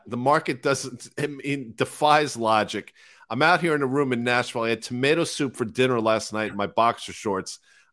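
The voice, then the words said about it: Hoarse, worn-out voice. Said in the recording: “I'm not feeling particularly well. My voice is shot.”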